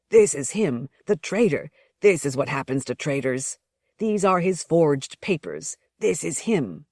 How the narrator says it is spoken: one of them saying loudly

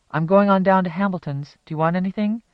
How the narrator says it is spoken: Mag called out the kitchen door through the back porch screen to her mother

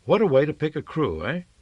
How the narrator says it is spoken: He laughed

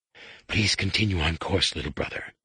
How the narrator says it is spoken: a Barabel rasped

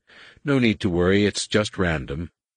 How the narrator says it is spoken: In a more reassuring voice, Gavin added

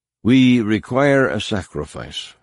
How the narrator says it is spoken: she said

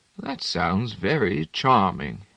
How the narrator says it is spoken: he said, timidly

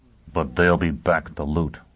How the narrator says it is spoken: Foyle murmured

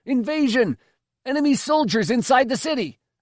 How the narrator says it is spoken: shouting

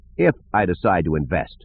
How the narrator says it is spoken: Lando said firmly

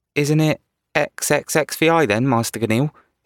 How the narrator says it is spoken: He asked feebly

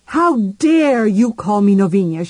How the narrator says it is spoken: she shouted

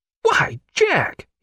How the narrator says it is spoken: he cried

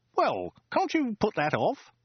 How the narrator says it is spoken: He exclaimed

